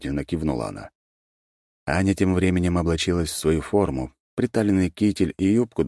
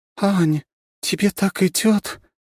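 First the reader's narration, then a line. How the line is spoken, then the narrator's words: Admiring breathy exclamation. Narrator (Russian): восхищенно выдохнула она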